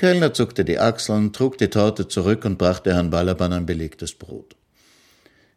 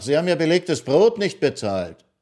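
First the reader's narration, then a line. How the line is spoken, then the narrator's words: Waiter calling after. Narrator (German): rief ihm der Kellner nach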